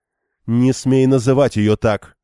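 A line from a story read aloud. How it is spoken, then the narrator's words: Barked. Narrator (Russian): рявкнула Кэтрин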